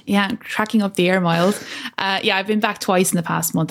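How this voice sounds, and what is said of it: Irish accent. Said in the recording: “I love that accent. I love the Irish accent.”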